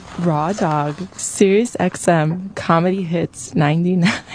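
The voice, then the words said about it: Put-on sexy sultry voice. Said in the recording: “Let's hear your sexy voice ... that was sexy”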